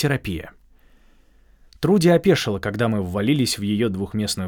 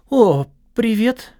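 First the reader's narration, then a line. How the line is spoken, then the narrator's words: Stunned but glad. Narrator (Russian): проговорила она несколько ошарашенно, но радостно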